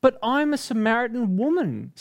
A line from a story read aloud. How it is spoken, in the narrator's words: Sam exclaimed